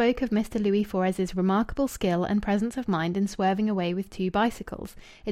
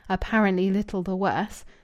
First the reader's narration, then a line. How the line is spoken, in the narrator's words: murmuring it with his eyes shut